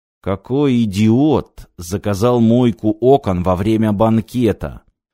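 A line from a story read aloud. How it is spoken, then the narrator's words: Low growl. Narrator (Russian): В полголоса прорычал бомбардир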